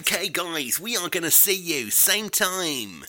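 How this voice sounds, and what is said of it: Put-on DJ presenter voice. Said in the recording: “I'm doing my DJ voice now.”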